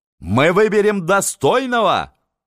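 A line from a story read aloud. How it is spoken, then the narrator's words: Crowd shouting. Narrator (Russian): кричала толпа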